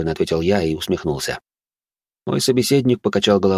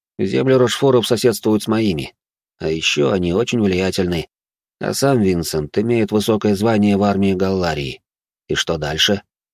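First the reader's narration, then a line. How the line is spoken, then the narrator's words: Plain. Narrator (Russian): спросил я Жумельяка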